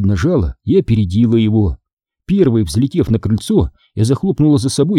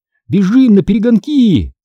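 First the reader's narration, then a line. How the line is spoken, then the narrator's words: Shout. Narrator (Russian): крикнул он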